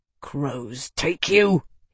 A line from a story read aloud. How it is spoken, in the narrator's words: he snarled